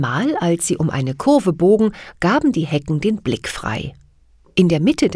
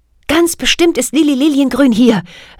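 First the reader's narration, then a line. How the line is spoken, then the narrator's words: Excited call. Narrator (German): rief Kathy aufgeregt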